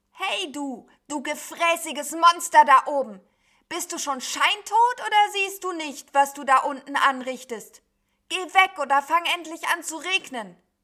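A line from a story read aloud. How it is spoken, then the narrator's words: Scream. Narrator (German): Und so schrie es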